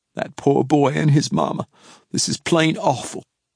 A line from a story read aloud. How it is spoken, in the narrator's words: Ruth Ann held back a sob, but her voice quivered when she said